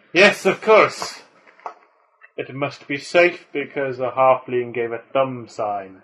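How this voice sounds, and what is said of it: Put-on dwarven Scottish-Welsh accent. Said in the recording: “If my gran could hear your accent, she would absolutely batter you ... It's a dwarven accent ... why is she Welsh? ... She's Russian, actually ... It's like the Scottish Welsh accent ... A bit Transylvanian.”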